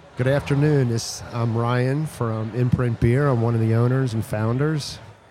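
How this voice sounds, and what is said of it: Hoarse voice. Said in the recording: “It sounds like I'm hoarse.”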